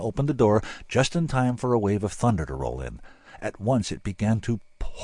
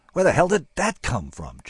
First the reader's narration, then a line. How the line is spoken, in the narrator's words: Jesse asked indignantly